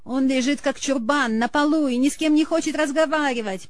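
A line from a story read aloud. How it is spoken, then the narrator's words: Whiny tearful complaint. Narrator (Russian): плаксивым голосом пожаловалась Елена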